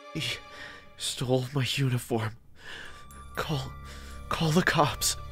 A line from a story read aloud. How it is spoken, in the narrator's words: The man said in a painful, sobbing voice